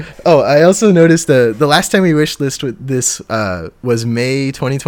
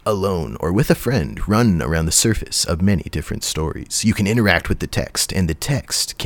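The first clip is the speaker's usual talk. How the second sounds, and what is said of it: Movie trailer announcer voice. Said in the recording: “do you want to do the movie theater voice”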